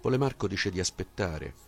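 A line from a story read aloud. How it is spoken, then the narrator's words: Boy exclaiming. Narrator (Italian): il ragazzo dietro le spalle esclamando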